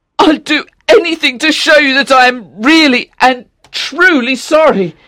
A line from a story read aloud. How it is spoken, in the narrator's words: cried Octavian